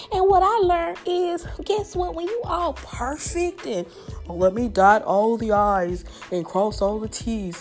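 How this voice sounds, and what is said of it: Southern American accent. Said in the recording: “my southern accent ... My southern charm, the way I talk”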